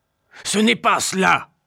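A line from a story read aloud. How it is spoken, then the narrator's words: Shouting. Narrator (French): crie mon oncle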